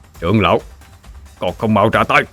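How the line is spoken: Harsh stressed voice. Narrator (Vietnamese): Lôi Vũ gằn giọng

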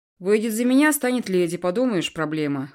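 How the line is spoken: Scoffing. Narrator (Russian): хмыкнул Эдви

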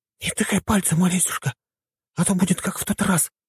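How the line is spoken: Mother whispering. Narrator (Russian): прошептала мамаша

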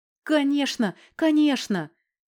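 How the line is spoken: Joyful relieved elderly murmur. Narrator (Russian): Радостно прожурчал пенсионер, чувствуя, что хватка ослабла

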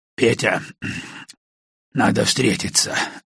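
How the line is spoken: Muffled low voice. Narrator (Russian): глухо проговорил он

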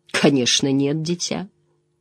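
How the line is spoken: Sad speech. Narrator (Russian): печально сказал

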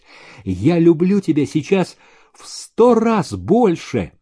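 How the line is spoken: Happy exclamation. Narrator (Russian): воскликнул счастливый Зеленин

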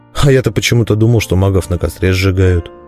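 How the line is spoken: Dejected mutter. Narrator (Russian): удрученно пробормотал я

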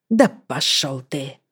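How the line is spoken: Hoarse whisper. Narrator (Russian): хрипло прошептала Лайза

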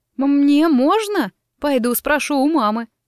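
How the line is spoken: Woman crying out. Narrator (Russian): услышав слова сиделки, вскрикнула женщина

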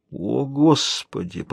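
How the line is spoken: Muttered. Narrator (Russian): пробормотал Боб

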